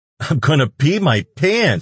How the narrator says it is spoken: she wailed

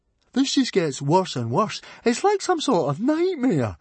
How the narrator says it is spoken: moaned Fishlegs

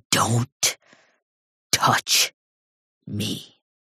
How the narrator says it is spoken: snarl

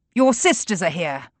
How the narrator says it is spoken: shouts from the terrace

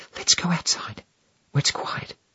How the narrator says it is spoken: Sylvie whispers to me

